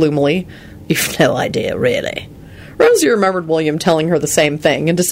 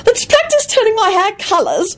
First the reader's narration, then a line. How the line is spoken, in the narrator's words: Rosie squealed excitedly